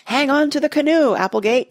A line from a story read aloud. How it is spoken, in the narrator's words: shouted